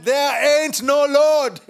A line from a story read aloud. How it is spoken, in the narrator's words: an atheist who would get so angry, and he said